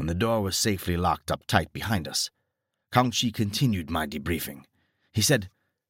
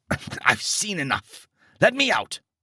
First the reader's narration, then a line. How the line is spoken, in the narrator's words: I choked out